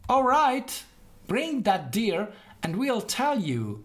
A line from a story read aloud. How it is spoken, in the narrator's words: they said